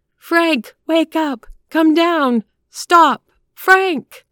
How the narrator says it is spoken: The crowd shrieked

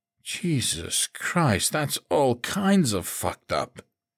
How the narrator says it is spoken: he breathed

